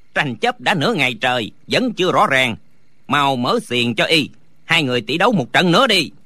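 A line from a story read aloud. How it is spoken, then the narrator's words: Shout. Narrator (Vietnamese): Lý Tứ quát lên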